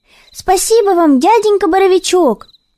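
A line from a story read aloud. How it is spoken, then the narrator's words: Kitten's farewell shout. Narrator (Russian): выкрикнул напоследок котенок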